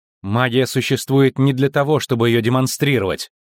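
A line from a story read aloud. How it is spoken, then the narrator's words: Angry. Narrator (Russian): зло сказала Цири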